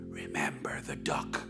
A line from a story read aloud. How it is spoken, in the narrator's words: And she whispered again in ear